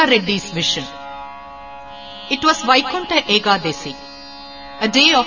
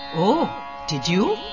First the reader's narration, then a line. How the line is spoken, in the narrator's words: gently smiled Swami